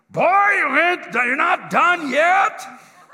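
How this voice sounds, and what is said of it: Booming voice, German accent. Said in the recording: “this booming voice down there ... he has got this German accent, right?”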